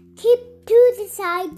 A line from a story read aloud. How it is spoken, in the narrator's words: shouted the little red car